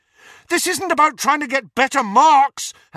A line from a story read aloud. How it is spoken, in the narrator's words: Harry shouted at her